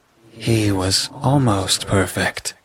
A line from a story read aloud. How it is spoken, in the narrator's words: she sighed